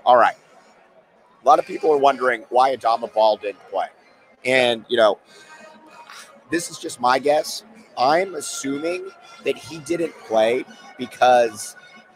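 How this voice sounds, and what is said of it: Hoarse, strained voice. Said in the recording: “I'm losing my voice. I've been yelling for like 3 straight days.”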